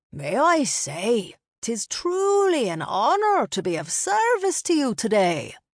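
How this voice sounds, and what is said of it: Thick charming accent. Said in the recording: “His thick accent made his greeting seem more charming.”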